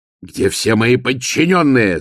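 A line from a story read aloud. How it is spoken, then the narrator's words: Yelling. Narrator (Russian): заорал Ваймс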